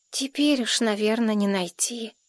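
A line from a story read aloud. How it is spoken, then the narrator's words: Boy's sigh. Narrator (Russian): вздохнул мальчик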